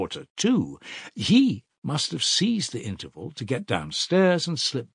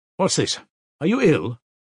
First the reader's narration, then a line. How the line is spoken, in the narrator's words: Nikodim Fomitch asked rather sharply